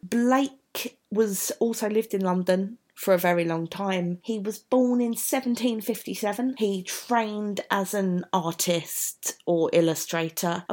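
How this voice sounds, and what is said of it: South London accent. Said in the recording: “As you can tell from my accent, I am from South London”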